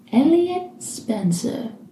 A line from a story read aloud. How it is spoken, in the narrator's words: Crowley says softly